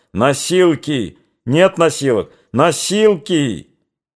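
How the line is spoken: Hoarse angry shouting. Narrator (Russian): В шагах в 20 кто-то охриплый, сердитый кричал

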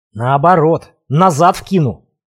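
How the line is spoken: Breathless hiss. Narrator (Russian): задыхаясь, прошипел

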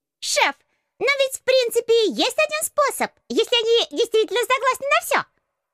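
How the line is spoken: Squeaky voice from behind. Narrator (Russian): пропищал кто-то у меня за спиной

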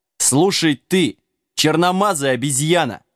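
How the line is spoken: Mad roar. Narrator (Russian): взревел сумасшедший король

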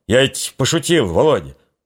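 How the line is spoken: Fawning yet spiteful. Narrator (Russian): заискивающе злобно сказал

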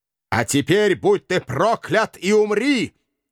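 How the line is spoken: Triumphant howl. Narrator (Russian): торжествующе взвыл этот болтун

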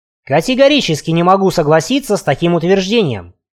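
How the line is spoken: Sharp curt retort. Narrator (Russian): резко бросил Гольдбрейх

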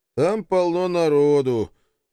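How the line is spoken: Sighing. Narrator (Russian): вздохнул я

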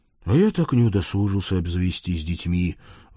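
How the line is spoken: Sighing. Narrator (Russian): вздохнул Фрол

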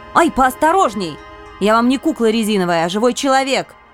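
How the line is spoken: Sharp scolding shout. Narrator (Russian): прикрикнула я

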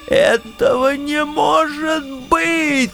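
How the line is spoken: Shrill falsetto squeal, interrupting. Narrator (Russian): тонким фальцетом завизжал пан Юлий, пытаясь меня перебить

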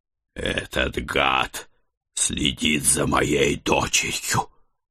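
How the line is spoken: Snorting angry growl. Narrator (Russian): выпустив пар через нос, прорычал я

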